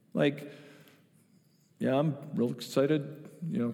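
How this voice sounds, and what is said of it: Imitates another person's voice, unenthusiastic. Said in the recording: “kind of my Joe Maurer imitation”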